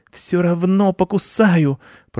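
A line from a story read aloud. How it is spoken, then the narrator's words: Hissing, calming down. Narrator (Russian): прошипела Маша-кошка, успокаиваясь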